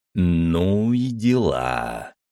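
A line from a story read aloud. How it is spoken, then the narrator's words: Drawling. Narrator (Russian): протянул я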